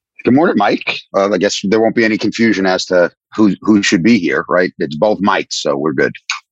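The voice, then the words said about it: Strong New York accent. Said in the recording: “you have a much more distinct, harder New York accent that people will pick up on”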